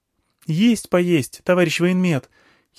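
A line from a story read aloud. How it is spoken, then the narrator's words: Giggle at a pun. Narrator (Russian): хихикнула от внезапного каламбура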